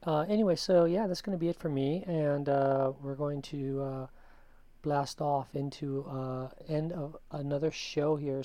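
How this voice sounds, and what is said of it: Slightly raspy voice. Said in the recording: “You can still kind of hear a little bit of raspy in my voice”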